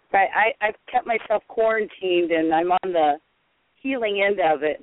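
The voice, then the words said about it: Hoarse voice. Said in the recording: “I'm a bit hoarse”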